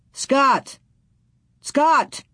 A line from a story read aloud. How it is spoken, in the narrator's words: He shouted